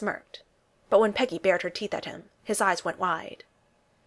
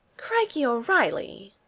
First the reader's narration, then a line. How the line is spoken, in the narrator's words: Peggy breathed, in delighted, exasperated shock